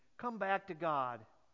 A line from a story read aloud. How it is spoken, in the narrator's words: plead